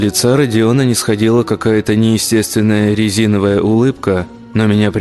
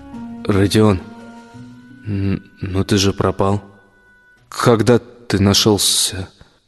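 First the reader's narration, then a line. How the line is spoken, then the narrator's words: Stammering mumble. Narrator (Russian): заикаясь, промямлил я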